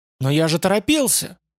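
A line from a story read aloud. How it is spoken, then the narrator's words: Warrior's hurt outcry. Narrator (Russian): вскричал воин обиженно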